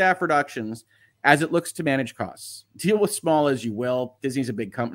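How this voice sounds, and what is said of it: Usual voice. Nothing is said of it.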